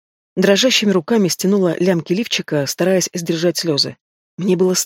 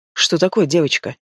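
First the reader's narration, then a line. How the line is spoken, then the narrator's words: Cold voice. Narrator (Russian): спросил холодным голосом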